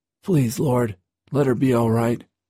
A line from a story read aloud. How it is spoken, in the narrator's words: cried aloud